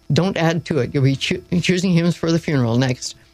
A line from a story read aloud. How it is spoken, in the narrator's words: begged